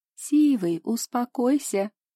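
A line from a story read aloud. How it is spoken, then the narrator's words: Laughing. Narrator (Russian): смеялась Аня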